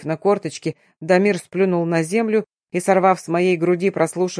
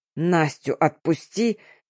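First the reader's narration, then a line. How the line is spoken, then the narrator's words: Pained breathless rasp. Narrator (Russian): Задыхаясь от боли, прохрипел я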